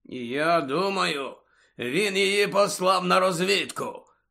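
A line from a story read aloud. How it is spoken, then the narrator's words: Growl. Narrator (Ukrainian): почулося гарчання Муді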